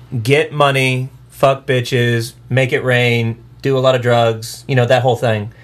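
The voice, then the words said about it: Sarcastic delivery. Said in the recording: “I'm totally being sarcastic. Totally being sarcastic.”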